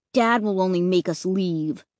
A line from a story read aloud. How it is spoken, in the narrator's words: Luke grumbled